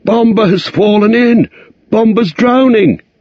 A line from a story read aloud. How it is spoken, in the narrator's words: he cried